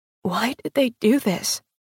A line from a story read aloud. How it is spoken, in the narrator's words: whispered